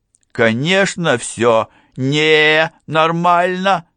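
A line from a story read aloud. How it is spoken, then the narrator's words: Inner voice shouting. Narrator (Russian): закричал голос в ее голове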